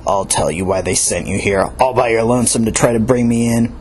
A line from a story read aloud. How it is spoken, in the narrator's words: growled